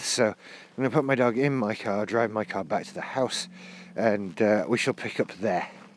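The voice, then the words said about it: Out of breath speaking. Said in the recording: “I'm now back at my car and still out of breath”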